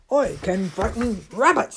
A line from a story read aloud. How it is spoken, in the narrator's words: said the large and growly bear